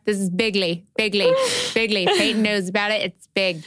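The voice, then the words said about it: Imitates another person's voice, badly. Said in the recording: “That's the worst Donald ... It's the worst Donald Trump impression you'll ever hear.”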